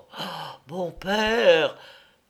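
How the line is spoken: Shuddering exclamation. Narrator (French): s'écria-t-elle en frissonnant

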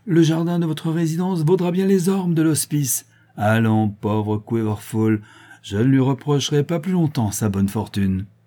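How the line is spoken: Triumphant. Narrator (French): dit l'archidiacre d'un ton triomphant

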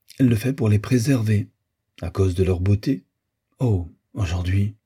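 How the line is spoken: Low voice. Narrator (French): Mistina parlait à voix basse

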